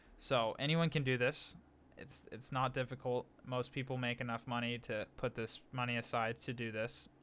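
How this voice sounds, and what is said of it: Monotone, flat delivery. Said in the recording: “I have a very monotone voice and I don't make this super interesting”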